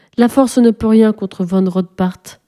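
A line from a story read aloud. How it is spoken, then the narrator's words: Sighing. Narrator (French): soupire Odette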